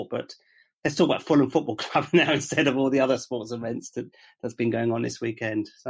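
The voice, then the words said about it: Croaky, hoarse voice. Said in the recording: “my voice is a little bit croaky”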